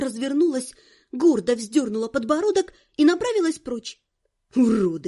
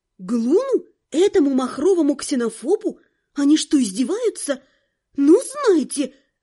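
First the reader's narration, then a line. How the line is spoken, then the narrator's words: Indignant exhale. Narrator (Russian): возмущенно выдохнула я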